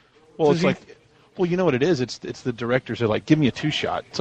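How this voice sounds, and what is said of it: Usual voice. Nothing is said of it.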